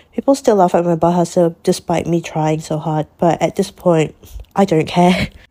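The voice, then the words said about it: Malaysian English (Manglish) accent. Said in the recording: “I just kept talking in a in the Manglish way, which is like Malay and English way of speaking ... like how I'm talking right now”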